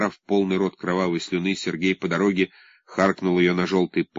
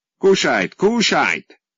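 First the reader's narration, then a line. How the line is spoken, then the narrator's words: Group shouting. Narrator (Russian): кричали фашисты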